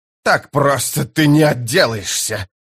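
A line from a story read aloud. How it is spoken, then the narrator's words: Furious hiss. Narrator (Russian): прошипел белый от ярости Пормкваль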